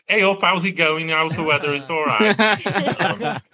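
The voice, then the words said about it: Northern English accent from Stoke. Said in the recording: “My native accent is from a town called Stoke-on-Trent ... my native northern accent will come out”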